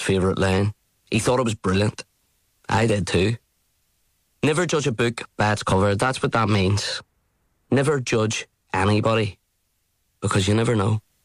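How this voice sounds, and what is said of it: Belfast accent. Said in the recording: “I knew it was a Belfast accent.”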